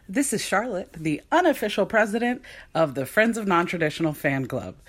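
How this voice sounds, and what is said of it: Polished radio-style voice. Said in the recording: “radio voice”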